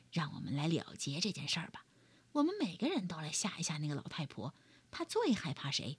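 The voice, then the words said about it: Lion character speaking quietly. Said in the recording (Chinese): “狮子小声说”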